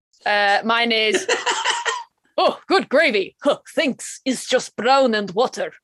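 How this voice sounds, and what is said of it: Bad put-on Eastern European accent. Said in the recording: “a big apology to all our French listeners there for her terrible accent ... he's supposed to be like indistinct Eastern European”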